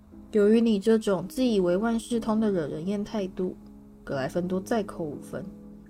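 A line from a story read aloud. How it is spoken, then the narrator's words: Cold. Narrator (Chinese): 史内普冷冷地说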